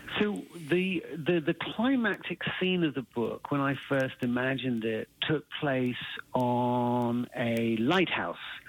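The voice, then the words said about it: British accent. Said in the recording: “you're a Brit from your accent, obviously”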